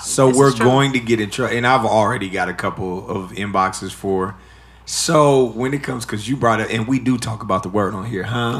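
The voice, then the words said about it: Hoarse voice. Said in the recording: “you sound hoarse right now”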